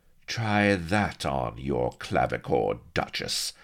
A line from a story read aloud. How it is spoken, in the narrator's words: she hissed spitefully